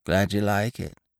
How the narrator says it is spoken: mumbled old Biffy

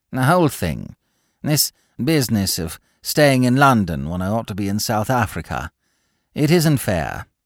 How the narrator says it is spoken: said Claude warmly

